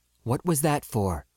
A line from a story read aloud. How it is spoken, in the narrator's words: the captain demanded softly